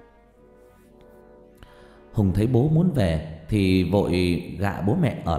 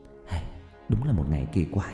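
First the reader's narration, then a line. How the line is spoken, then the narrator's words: Soft whisper. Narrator (Vietnamese): Cô khẽ thì thầm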